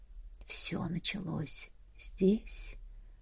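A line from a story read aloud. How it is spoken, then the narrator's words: Whispered. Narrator (Russian): прошептал Эдмунд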